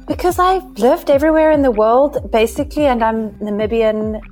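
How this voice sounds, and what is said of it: South African accent, British and American tinges. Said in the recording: “I have what you would call a South African accent ... there's got a bit of like British infused in it and American ... it's a very confused, very confused accent”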